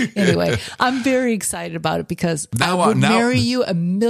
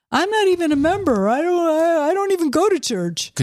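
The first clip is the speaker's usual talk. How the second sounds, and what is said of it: Imitates another person's voice. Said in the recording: “Could you do my voice a little better?”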